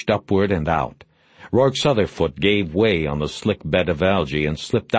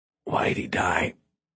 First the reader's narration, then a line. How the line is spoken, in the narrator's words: Bosch whispered